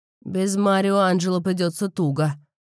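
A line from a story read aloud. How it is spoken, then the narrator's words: Snort. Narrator (Russian): хмыкнул Тони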